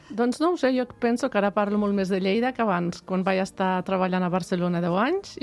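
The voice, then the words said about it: Lleida regional Catalan accent. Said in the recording (Catalan): “aquest accent lleidatà tan bonic ... t'ha tornat l'accent de Lleida”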